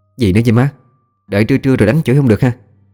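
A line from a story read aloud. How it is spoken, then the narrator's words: Sulky, grumbling. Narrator (Vietnamese): Cô hậm hực nhăn nhó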